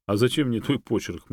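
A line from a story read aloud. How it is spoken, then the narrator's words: Scoffing. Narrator (Russian): хмыкнул Юрий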